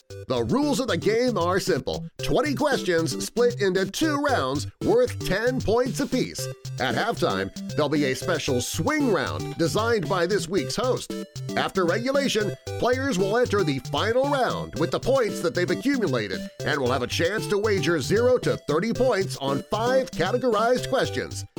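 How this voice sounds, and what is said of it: Imitates another person's voice. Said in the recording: “do your best Davo impression”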